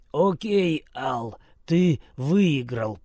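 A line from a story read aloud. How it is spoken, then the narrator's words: Hoarse rasp. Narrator (Russian): прохрипел я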